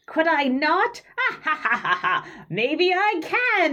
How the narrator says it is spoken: the gremlin lord is going to, look at you and cackle and say

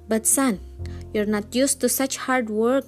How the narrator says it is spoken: his father said sadly

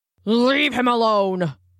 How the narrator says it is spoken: boomed a voice

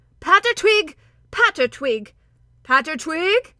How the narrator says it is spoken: Truffle Hunter called out

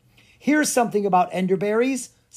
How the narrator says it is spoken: said Clara excitedly

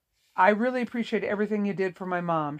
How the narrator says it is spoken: she said

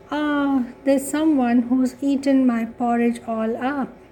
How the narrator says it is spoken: cried the baby bear

